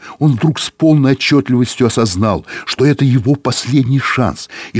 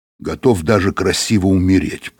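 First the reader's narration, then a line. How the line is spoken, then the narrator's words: Grumbled. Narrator (Russian): проворчал Быков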